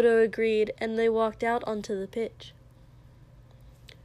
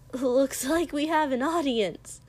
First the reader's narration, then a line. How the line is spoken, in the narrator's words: Izuku said cheerfully